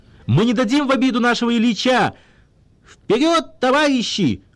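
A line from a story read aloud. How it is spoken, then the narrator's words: Joyful exclamation. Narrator (Russian): обрадованно воскликнул Кривокорытов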